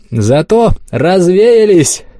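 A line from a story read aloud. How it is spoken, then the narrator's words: Shouting. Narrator (Russian): крикнул я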